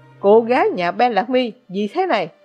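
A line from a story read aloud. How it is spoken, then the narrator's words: Roaring. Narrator (Vietnamese): gầm lên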